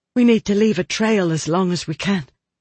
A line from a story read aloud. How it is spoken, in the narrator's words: said Catherine, panting